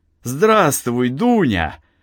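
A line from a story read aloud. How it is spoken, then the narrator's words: Joyful exclamation. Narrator (Russian): радостно воскликнул Артем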